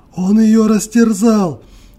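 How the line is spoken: Forced out through tears. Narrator (Russian): выдавила она сквозь слезы

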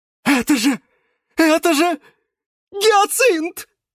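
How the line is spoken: Exclamation. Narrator (Russian): воскликнул Василий

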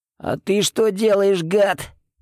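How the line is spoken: Hoarse rasp. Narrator (Russian): прохрипел я

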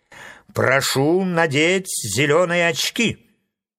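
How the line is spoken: Stern. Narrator (Russian): строго сказал фаромант

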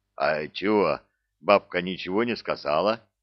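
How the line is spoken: Deep bass voice. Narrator (Russian): пробасил Простаков

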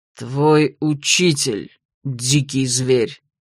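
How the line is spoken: Hateful, through gritted teeth. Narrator (Russian): с неожиданной ненавистью, процедил Масул

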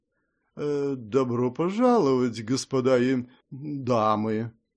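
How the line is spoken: Drawled a bit uncertainly. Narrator (Russian): немного неуверенно протянула

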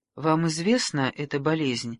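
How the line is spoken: Low-voiced question, lady. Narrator (Russian): вполголоса спросила леди Маргарет

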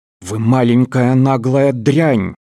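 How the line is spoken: Snarling. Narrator (Russian): зарычал Веберт

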